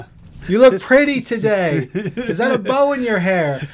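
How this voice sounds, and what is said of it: Imitates another person's voice. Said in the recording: “my David Lynch impression”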